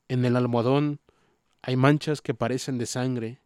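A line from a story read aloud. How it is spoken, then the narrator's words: Low voice calling. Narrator (Spanish): llamó a Jordan en voz baja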